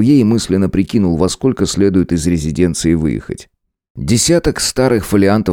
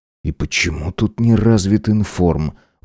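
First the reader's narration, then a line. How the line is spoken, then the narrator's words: Muttered to himself. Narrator (Russian): буркнул сам себе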